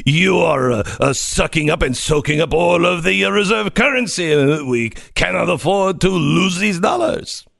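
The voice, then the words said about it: Impression of Macron's accent. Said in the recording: “Can you do it in your Macron accent?”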